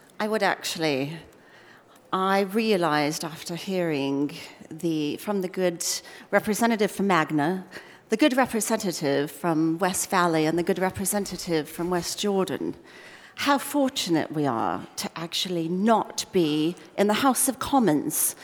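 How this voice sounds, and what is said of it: Pretty good put-on British accent. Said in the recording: “speaking in a pretty good British accent”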